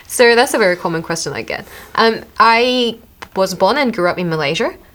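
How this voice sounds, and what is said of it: Australian-sounding accent. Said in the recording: “you sounded so Australian”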